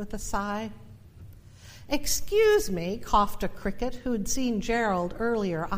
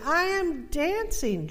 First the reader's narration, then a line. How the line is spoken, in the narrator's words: Gerald cried